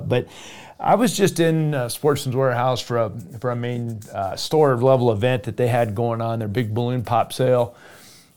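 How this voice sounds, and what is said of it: Strained, unwell-sounding voice. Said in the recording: “I was under the weather and uh, my voice was just out of whack, and I'm still fighting it a little bit”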